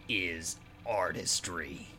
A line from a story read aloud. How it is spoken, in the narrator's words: muttered